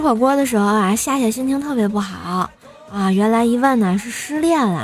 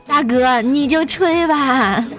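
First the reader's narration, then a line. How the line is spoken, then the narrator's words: Laughing. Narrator (Chinese): 我笑道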